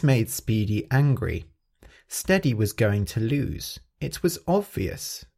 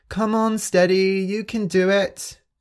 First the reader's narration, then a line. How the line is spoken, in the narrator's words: the other animals were shouting